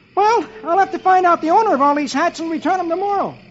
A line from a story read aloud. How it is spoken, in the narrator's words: Dagwood exclaims